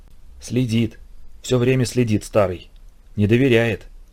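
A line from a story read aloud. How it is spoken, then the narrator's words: Whispered. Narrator (Russian): шептал мне Вовка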